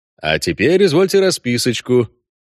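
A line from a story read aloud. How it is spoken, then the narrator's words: Brisk cheerful offer. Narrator (Russian): бодро предложил Геральт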